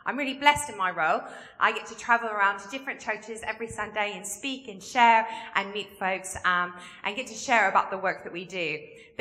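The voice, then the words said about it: Mixed Kentucky and English accent. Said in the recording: “I'm originally from Kentucky, but have lived in England now for 17 years. So I do have a bit of a mix of an accent.”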